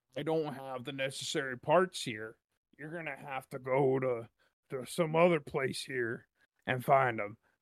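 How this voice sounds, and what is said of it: Random made-up character voice. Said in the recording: “That's not Bill's voice. I'm just doing a random voice.”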